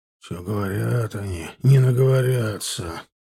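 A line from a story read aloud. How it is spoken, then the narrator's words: Grumble. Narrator (Russian): проворчал Сошников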